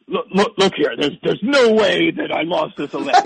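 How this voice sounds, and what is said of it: Poor imitation of another person's voice. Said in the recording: “That's the worst Trump impression I've ever heard in my life.”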